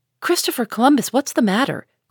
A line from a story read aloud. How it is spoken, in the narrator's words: cried Joe, asked quickly